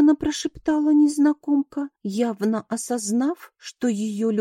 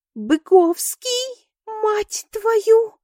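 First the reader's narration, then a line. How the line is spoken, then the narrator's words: Woman's hysterical shriek. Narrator (Russian): истерично взвизгнула бабенка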